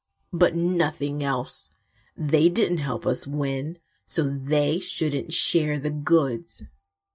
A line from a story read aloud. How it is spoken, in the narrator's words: they grumbled